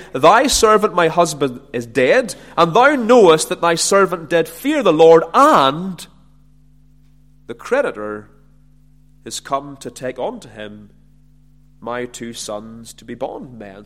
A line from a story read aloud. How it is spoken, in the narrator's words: she cried unto Elisha, saying